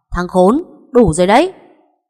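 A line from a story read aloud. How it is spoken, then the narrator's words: Impatient loud shout. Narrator (Vietnamese): Anh Long sắp mất sạch kiên nhẫn, hét to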